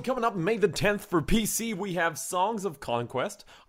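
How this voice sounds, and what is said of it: Put-on accent. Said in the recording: “I don't know where this accent came from.”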